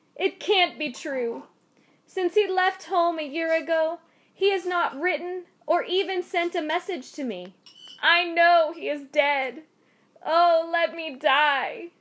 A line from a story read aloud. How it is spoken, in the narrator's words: cried A Kin Sao